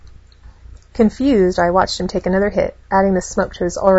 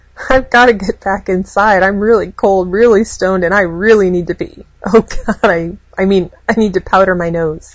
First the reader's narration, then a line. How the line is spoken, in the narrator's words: corrected, giggling